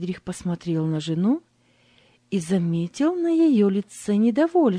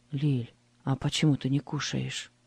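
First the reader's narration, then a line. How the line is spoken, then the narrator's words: Quiet question. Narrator (Russian): тихо спросил он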